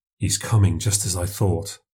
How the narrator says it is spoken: I muttered

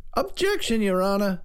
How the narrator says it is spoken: cried Talmadge

